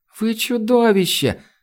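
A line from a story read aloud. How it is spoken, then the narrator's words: Forced out through sobs. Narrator (Russian): сквозь рыдание выдавила Айлани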